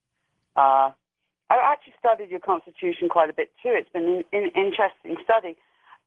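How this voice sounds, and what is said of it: British accent. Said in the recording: “you can tell from my accent that I'm from Britain, and I was educated there”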